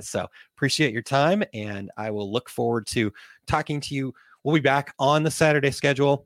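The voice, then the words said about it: Voice going, strained and hoarse. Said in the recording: “While I lose my voice”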